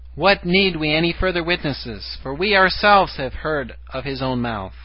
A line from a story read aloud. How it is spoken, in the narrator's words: They cried out